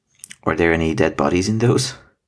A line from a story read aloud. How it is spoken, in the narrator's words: laughed